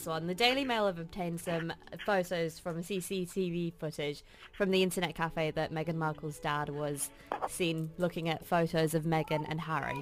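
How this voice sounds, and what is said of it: British accent. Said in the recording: “you've got a British accent”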